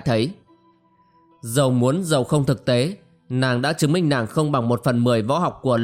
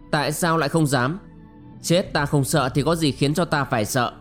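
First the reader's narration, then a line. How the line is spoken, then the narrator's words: Scornful sneer. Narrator (Vietnamese): Ngọc Lung Linh cười khẩy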